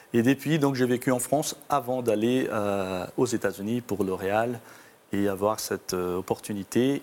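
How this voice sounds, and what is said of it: Slight Brazilian accent. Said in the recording (French): “vous avez un petit accent ... je suis d'origine brésilienne”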